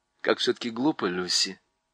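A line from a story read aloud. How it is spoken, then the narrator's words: Quiet. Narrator (Russian): тихо сказал Юстас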